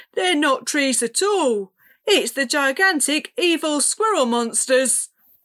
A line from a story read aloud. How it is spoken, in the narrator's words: yelled